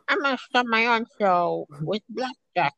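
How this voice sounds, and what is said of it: Poor imitation of a cartoon mom. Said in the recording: “in a crappy Lois voice”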